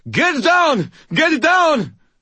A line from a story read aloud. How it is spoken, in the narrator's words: Someone, Ramirez, I thought, screamed